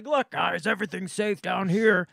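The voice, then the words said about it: Imitates another person's voice. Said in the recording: “that's a really good impression”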